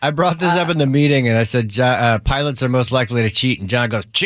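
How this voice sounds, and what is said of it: Usual voice. Nothing is said of it.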